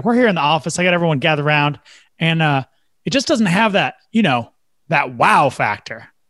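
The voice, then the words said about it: Put-on Oklahoma accent. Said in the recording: “he, of course, had the Oklahoma accent.”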